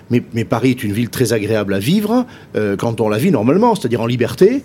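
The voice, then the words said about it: Non-Parisian French regional accent. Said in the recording (French): “Mon accent témoigne que je ne suis pas parisien.”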